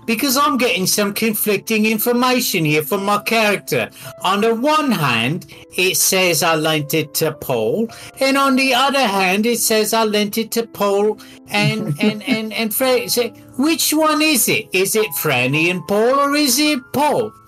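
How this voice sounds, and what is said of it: Put-on accent. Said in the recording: “I'm going to ask this in accent”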